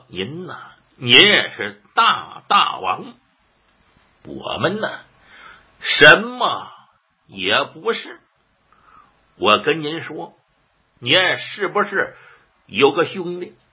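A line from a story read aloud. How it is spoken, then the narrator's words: Laughing. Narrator (Chinese): 魏一涵一笑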